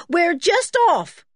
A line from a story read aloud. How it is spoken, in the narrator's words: shouted Joanna's voice